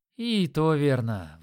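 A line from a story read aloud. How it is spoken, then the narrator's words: Archer sighing. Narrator (Russian): вздохнул лучник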